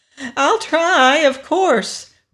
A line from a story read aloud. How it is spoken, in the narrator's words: replied the Wheeler eagerly